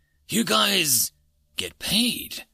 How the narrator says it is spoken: he croaked

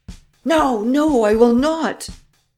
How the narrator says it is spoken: Varin recoiled in terror and cried

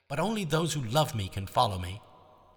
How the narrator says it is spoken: he shouted

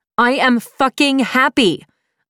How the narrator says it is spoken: I screamed

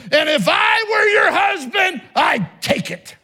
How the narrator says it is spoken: Glaring back, shouted

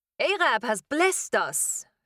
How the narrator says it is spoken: Firuz exclaimed, his voice brightening as he transformed from my friend into a salesman

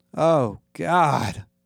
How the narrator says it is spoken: groaned

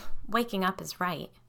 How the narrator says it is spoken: Stephanie muttered

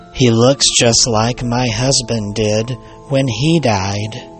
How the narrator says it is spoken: she shook her head sadly and said

